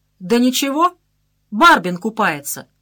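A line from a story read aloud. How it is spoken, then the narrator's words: Loud reply from boat. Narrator (Russian): Аша Хворостов из лодки громко ответил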